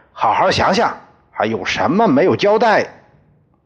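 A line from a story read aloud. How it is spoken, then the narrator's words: Stern police officer. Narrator (Chinese): 民警 厉声对他说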